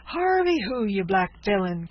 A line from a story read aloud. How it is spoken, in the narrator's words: cried the impatient lieutenant